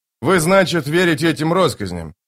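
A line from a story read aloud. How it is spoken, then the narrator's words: Grumbling. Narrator (Russian): проворчал Остряк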